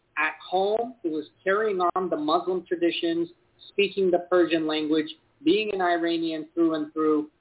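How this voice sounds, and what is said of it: Upstate New York American accent. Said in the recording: “I really went to school in upstate New York, so my accent kind of reflects that.”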